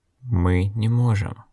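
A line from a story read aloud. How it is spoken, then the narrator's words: Uncertain. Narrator (Russian): неуверенно сказал Логерт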